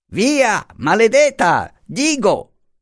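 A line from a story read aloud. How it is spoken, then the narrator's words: Shouted. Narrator (Italian): gridò il signor Zacomo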